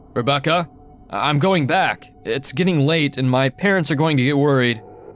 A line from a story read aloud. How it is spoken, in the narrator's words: I was getting scared, so I called out